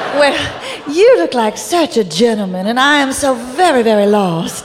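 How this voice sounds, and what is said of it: Passable put-on Virginia accent. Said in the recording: “You can learn a passable Virginia accent in just 6 weeks”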